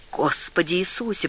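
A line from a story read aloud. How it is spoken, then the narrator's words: Mutter. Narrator (Russian): пробормотал Джек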